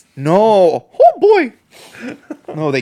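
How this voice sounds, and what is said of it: Mickey Mouse cartoon voice impression. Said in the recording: “was a good Mickey Mouse impression.”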